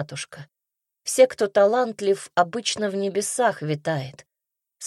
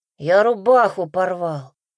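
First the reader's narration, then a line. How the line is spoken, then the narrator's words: Hiss through teeth. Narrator (Russian): зашипела сквозь зубы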